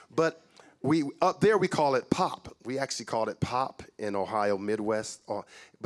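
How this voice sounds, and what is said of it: American accent. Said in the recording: “as you can tell from my accent, you know, you probably figured I'm from the States”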